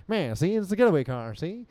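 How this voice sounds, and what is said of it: Bad 1930s gangster voice impression. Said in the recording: “do an impression of Zooey Deschanel, which is just her doing her 30s gangster thing ... the key to a bad impersonation”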